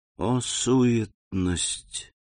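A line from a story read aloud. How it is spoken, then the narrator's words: Nobleman's whisper. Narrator (Russian): прошептал граф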